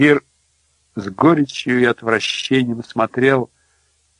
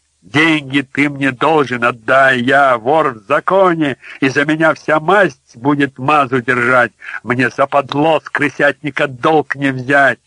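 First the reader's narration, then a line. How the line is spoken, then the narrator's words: Loud laughter. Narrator (Russian): Швец громко засмеялся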